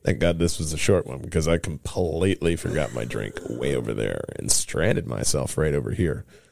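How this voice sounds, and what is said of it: Unusually deep, dry voice. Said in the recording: “my voice is so deep, because I desperately need a drink”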